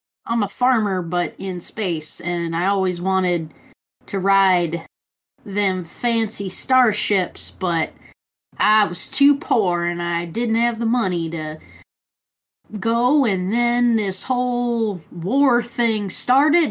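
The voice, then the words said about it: Put-on Southern US accent. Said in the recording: “it's got to be a southern accent ... It's space southern.”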